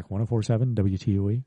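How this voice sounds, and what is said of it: Radio announcer voice. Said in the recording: “I got my radio voice back.”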